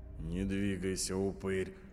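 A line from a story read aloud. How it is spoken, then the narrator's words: Dry threat. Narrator (Russian): сухо пригрозила Агата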